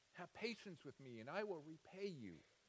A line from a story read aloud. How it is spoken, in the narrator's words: began to plead with him, saying